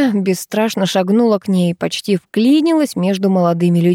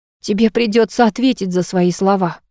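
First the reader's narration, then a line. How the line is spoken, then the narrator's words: Frenzied growl. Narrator (Russian): Прорычала, словно в беспамятстве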